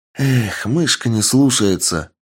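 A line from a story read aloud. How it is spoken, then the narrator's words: Sighing. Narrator (Russian): вздохнув, сказала Аннет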